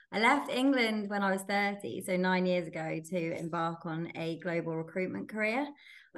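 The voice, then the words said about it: English accent. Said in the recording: “You can probably tell from my accent that I'm originally from England.”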